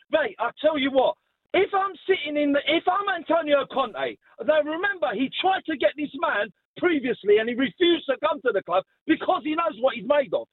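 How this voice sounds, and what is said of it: Raised, loud, heated voice. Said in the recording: “I'm sorry I'm raising my voice”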